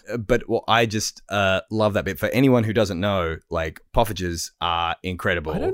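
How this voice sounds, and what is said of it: Usual voice. Nothing is said of it.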